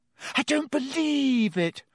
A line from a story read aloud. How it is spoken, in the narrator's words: Hermione wailed